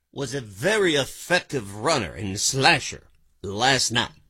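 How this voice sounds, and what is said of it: Okay Howard Cosell impression. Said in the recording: “do an impression. ... Is that a Cosell? ... He can do an okay Cosell. ... For ... standards of impressions, that not bad.”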